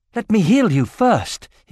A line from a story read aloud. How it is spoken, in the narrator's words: he cried, afraid she might faint